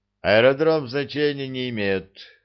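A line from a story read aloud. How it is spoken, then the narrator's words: Agreeing grumble. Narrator (Russian): согласно проворчал Горбовский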